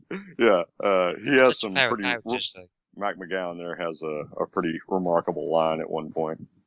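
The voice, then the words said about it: Thick regional accent. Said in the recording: “I got a pretty thick accent”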